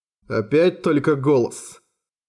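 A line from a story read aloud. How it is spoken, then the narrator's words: Grumbling. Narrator (Russian): проворчал Тору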